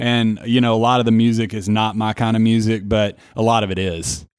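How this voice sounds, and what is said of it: Tennessee accent. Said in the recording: “my accent is probably the most Tennessee, the most 615 thing about me”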